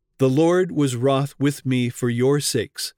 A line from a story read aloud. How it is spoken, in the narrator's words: said Moses